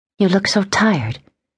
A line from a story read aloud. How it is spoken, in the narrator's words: Rebecca said, gently admonishing him